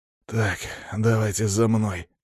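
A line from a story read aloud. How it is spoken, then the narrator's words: Pained, through gritted teeth. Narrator (Russian): процедил я, будто сквозь боль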